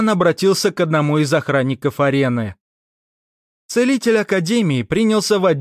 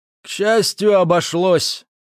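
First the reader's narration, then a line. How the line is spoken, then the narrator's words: Strained. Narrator (Russian): выдавил из себя Этман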